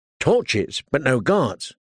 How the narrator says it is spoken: Theon said testily

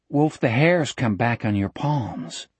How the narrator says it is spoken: Jack asked in a low voice

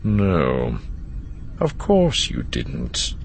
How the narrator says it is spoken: he said, his tone far more knowing than Lando found comfortable

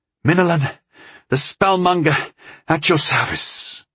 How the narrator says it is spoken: I gasped, affecting the brogue of the Wilderland countryfolk

